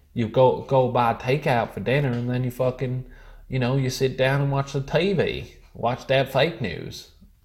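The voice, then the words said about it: Inconsistent put-on accent. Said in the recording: “this is probably the worst accent, because it differs very much as I'm talking”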